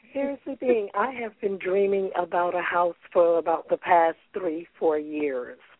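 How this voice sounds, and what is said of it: Hoarse, losing her voice. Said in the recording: “I'm a little hoarse today, a little laryngitis ... Losing my voice a little bit”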